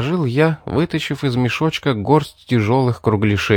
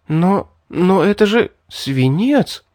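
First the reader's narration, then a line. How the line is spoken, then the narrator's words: Bewildered young woman. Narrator (Russian): растерянно проговорила девушка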